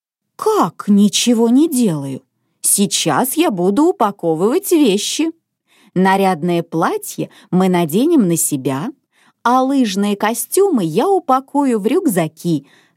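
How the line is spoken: Mother's calm reply. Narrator (Russian): спокойно ответила мама

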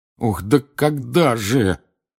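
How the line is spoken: Groaning. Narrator (Russian): простонал Рон

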